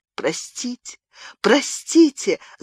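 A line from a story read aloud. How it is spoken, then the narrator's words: Sobbing. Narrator (Russian): зарыдала она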